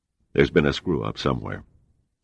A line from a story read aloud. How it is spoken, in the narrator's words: Seagram said flatly